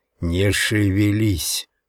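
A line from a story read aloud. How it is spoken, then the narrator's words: Hissed. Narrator (Russian): прошипел я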